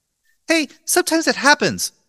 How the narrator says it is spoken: Brenda said haughtily

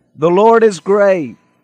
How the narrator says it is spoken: I shouted again

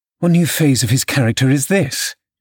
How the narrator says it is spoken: exclaimed Mrs

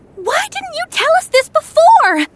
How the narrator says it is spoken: shrieked Jules

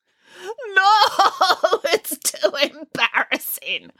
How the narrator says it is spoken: wailed Boris

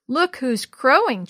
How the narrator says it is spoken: chuckled Bill

